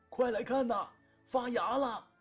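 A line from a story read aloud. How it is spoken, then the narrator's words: Old man's delighted cry. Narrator (Chinese): 老厂长惊喜地叫两个护林员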